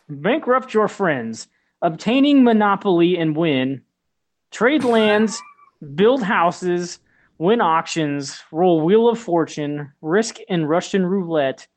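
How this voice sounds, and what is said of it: Put-on Russian accent. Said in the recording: “Can you read this in a Russian accent?”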